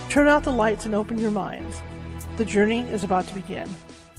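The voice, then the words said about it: Dramatic announcer voice. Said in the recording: “That's my announcer voice.”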